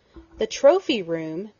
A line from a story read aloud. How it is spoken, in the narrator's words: Penny cried